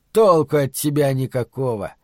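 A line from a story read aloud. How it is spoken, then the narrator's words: Scornful snort. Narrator (Russian): фыркнул Дэйв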